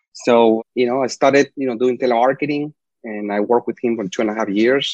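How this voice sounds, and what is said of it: Slight Spanish accent. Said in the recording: “If I have a little accent, I'm sorry. ... I'm Spanish, you know, speaking.”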